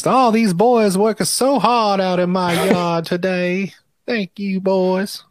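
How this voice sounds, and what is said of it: Put-on Southern belle accent. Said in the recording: “A Southern belle”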